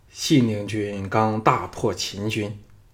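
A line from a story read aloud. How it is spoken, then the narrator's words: Resigned sigh. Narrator (Chinese): 项少龙早知道骗他不过，叹道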